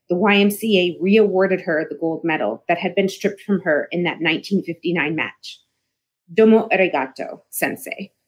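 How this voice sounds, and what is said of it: Choked-up, emotional voice. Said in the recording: “I'm getting choked up by my own words.”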